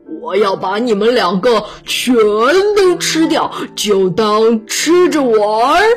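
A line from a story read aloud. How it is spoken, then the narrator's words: Monster roaring. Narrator (Chinese): 怪兽咆哮道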